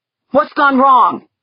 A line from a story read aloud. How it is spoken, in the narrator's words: he demanded, his voice hoarse, growling